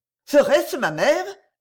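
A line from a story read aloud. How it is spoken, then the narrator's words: Exclaiming. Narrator (French): s'écria Camilla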